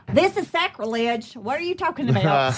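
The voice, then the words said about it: Put-on New York accent. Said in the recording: “That's my New York accent. Thank you. I have worked so hard on it.”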